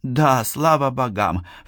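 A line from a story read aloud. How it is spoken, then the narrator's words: Feigned weary sigh. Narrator (Russian): вздохнула Мизуки, изображая усталость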